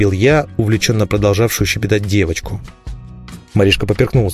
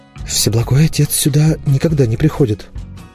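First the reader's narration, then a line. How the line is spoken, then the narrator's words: Frightened statement. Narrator (Russian): испуганно заявила она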